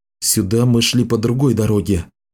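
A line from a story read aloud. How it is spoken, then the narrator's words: Whisper. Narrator (Russian): прошептал он девушке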